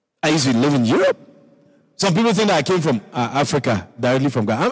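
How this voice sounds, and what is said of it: Ghanaian-accented English. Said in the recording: “from my accent and all of that, accent, when they say, oh, where is he from? Is he Nigeria? No, it's Ghana.”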